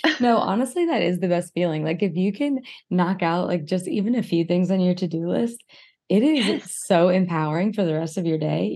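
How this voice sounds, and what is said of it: Lower, weak-sounding voice. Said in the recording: “my voice is just an octave lower today ... I just feel like my voice box is just weak today”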